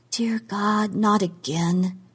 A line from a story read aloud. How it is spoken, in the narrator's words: she said in a low voice